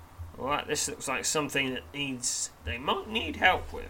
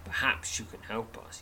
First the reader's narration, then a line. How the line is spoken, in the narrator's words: says wearily